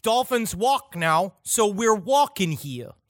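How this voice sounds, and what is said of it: Put-on Brooklyn accent. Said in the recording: “the Brooklyn accent”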